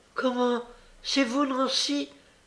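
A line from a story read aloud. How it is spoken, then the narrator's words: Surprised exclamation. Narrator (French): s'écria Olivier, en voyant la figure de la jeune femme qui s'était jusqu'alors tenue derrière lui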